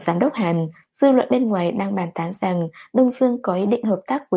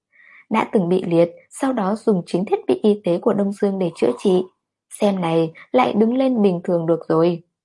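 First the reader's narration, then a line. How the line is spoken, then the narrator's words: Smiling reply. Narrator (Vietnamese): Hàn Đình mỉm cười đáp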